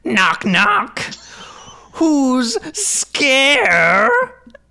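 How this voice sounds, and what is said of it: Crypt Keeper impression. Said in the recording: “I don't know what the Crypt Keeper sounds like, but I'm going to try to do a Crypt Keeper voice ... Let me get into the character of the Crypt Keeper”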